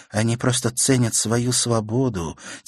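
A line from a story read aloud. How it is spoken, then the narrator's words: Quiet girl. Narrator (Russian): тихо сказала девочка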